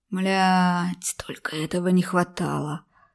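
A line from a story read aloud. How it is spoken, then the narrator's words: Annoyed hiss. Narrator (Russian): раздосадованно шипел Шувалов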